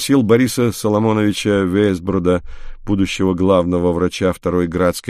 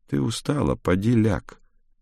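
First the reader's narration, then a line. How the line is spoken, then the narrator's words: Quiet voice. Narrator (Russian): тихим голосом сказал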